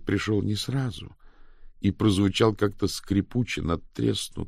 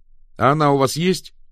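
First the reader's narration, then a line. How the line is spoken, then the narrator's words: Sharp reply. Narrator (Russian): резко ответил Мао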